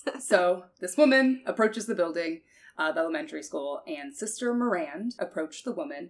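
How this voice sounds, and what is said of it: Country twang accent. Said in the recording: “I just speak country twang.”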